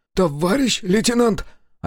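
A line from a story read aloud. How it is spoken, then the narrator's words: Hoarse call. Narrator (Russian): осипшим голосом позвал Волжин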